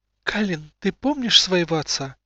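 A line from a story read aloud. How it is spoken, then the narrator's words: Gentle question. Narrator (Russian): спросила Инала, ласково глядя на испуганного ребенка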